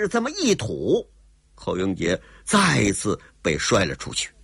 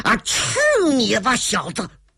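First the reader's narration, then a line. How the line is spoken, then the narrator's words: Shout. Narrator (Chinese): 吴大爷喊了一声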